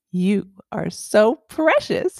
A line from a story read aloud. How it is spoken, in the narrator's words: she said between gasps of laughter